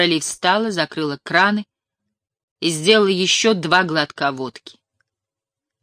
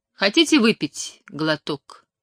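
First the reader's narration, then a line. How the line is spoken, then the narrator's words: Calm question. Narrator (Russian): спокойно спросила Флора Ли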